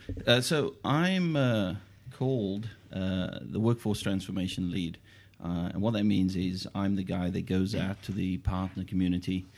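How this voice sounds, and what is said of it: Noticeable New Zealand accent. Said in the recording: “you'd never guess from his accent”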